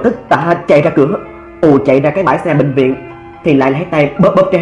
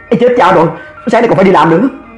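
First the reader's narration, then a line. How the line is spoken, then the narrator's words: Sudden cry. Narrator (Vietnamese): nó chợt la lên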